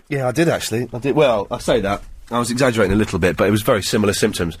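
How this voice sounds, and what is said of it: Congested, blocked-nose voice. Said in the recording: “You sound a bit congested ... I'm always bunged up these days”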